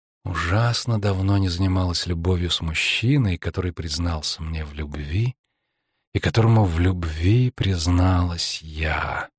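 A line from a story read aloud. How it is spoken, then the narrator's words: Purring, seductive. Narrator (Russian): замурлыкала она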